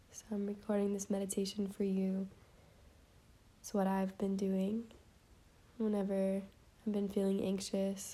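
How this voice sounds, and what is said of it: Slightly sick-sounding voice. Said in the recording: “If you can hear it in my voice, I'm a little sick.”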